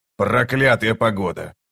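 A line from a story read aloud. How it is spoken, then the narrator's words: Muttering. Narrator (Russian): пробормотал он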